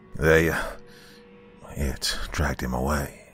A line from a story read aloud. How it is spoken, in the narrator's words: Theo muttered in a low, deadly voice